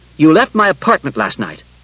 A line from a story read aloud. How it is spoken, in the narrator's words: Daniil sharply and said